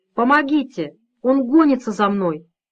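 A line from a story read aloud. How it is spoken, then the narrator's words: Boy shouting. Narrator (Russian): кричал мальчик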